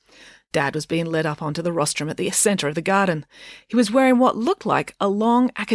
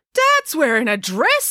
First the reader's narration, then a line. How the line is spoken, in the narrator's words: exclaimed April